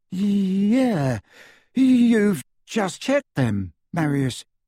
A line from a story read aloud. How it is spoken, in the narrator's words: his companion, who said in a slightly dazed voice